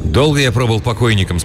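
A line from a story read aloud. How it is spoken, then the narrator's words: Plain. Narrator (Russian): спросил я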